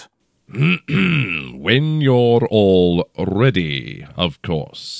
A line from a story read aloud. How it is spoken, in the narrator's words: he drawled